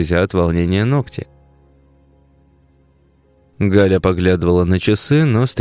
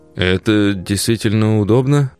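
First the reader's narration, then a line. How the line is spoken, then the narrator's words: Mumbled. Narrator (Russian): промямлил Тарас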